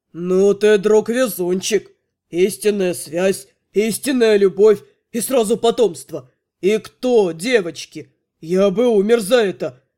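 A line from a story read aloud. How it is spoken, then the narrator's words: Hoarse excited bass. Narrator (Russian): Шаэр хрипло взволнованно пробасил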